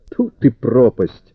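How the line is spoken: Exclaimed. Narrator (Russian): воскликнул Тенардье

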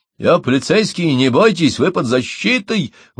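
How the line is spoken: Male shout. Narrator (Russian): выкрикнул он

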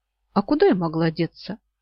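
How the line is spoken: Embarrassed mumble. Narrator (Russian): смущенно пробормотала я

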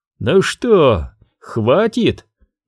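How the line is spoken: Mocking question. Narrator (Russian): насмешливо спросил Бэджу

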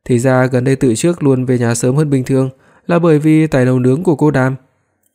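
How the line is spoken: Thin mocking smile. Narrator (Vietnamese): Đường Thư Nhan cười nhạt nói

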